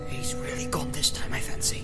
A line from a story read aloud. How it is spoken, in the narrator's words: muttered Sam